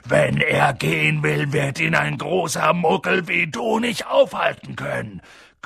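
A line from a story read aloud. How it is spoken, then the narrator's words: Growling. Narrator (German): knurrte Hagrid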